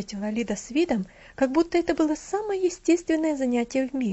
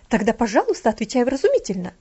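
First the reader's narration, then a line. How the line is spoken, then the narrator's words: Exclaiming. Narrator (Russian): воскликнула гувернантка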